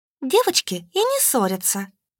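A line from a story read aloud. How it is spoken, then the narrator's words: Calm. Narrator (Russian): спокойно проговорила Надя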